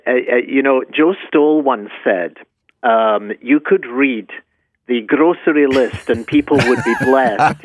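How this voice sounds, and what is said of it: Scottish accent. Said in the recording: “he's got that lovely Scottish accent”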